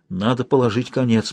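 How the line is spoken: Muttering. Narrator (Russian): бормотал он

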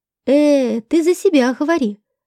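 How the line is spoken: Exclaimed. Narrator (Russian): воскликнул Курт

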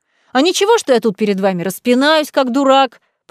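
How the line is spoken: Angry booming bass. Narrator (Russian): прогудел сердитый бас Павла Николаевича

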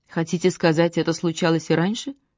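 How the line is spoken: Deathly calm question. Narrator (Russian): Мертвенно-спокойным голосом спросил

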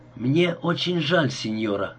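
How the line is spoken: Hoarse with emotion. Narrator (Russian): сказал я охрипшим от волнения голосом

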